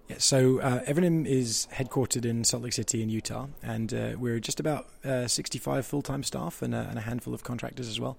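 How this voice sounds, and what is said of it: London English accent. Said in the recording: “As you can tell from my accent, I'm based here in London”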